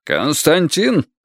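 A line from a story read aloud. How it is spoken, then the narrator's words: Barked. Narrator (Russian): рявкнул Рытвин-старший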